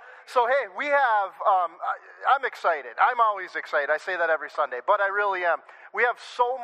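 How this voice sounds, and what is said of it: Usual voice. Nothing is said of it.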